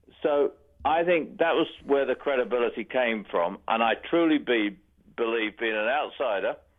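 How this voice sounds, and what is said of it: British accent. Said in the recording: “I'm actually originally from the UK. ... Is that where that accent's from? ... I'm not from Boston.”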